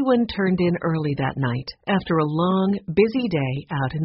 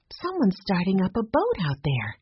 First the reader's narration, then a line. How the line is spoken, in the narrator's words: said softly